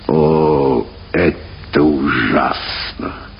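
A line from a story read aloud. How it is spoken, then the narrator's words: Muttering. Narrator (Russian): пробормотал он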